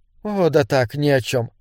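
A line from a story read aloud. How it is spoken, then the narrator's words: Soft. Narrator (Russian): мягко сказала Маргарет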